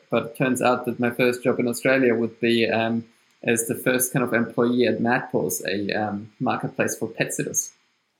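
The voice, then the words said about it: German-accented English. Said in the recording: “you can hear from my accent that it's German. So I'm from Austria”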